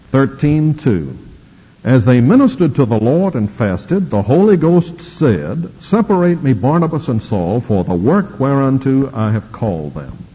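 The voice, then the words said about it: Southern US drawl. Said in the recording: “It's my southern drawl”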